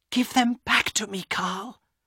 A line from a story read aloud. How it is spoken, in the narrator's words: Elena whispered